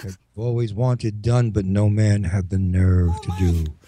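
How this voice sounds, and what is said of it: Deep, seductive sexy voice. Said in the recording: “sexy voice? Instead of my normal creepy voice ... the deep voice”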